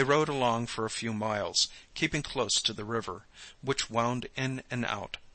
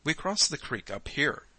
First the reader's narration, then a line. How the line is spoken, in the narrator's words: Jim said